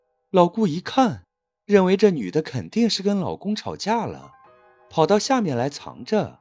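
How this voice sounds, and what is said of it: Usual voice. Nothing is said of it.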